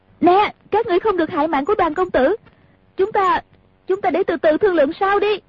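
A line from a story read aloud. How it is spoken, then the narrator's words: Loud shout, woman. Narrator (Vietnamese): Nàng lớn tiếng la lên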